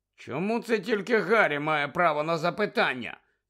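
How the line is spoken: Angry. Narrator (Ukrainian): сердито додав Фред

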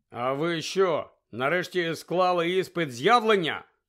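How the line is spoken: Angry grumble. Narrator (Ukrainian): сердито буркнув Гаррі

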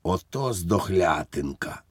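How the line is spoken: Whisper. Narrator (Ukrainian): він прошепотів фельдфебелів Іванікові

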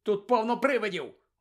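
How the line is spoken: Exclaiming. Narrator (Ukrainian): вигукнув Рон

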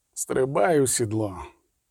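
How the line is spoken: Exhausted voice. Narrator (Ukrainian): сказав нарешті змученим голосом

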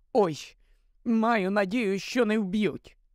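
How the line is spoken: Moaned. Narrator (Ukrainian): простогнала Герміона

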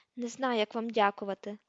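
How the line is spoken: Trembling voice. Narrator (Ukrainian): тремтячим голосом сказав Рон

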